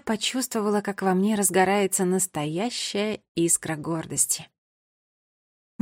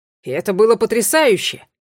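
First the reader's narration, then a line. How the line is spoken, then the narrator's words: Father exclaiming. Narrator (Russian): воскликнул мой отец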